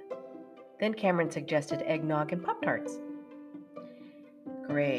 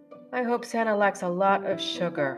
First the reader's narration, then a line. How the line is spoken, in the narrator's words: I chuckled